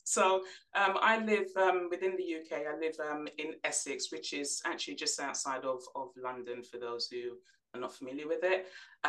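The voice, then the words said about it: English accent. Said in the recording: “people could probably pick up the accent by now, but you are from England”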